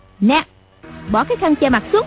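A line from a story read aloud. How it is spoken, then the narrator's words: Girl snapping. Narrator (Vietnamese): Cô gái quay sang quát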